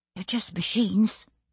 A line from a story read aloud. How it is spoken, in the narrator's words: he muttered